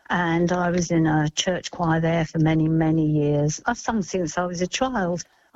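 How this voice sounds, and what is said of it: British accent. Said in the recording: “We're immigrants from the UK, as you can probably tell from my accent.”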